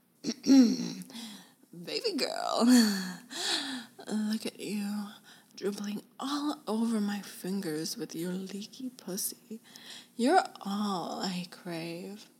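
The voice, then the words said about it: Put-on seductive sexy voice. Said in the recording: “Being Daddy, I gotta prep my sexy voice.”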